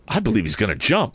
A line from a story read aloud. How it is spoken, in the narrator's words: suddenly exclaimed after a few minutes